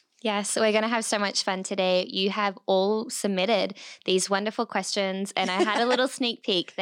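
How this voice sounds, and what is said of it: Australian accent. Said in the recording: “She's Australian. Everyone's going to ask. That's her accent.”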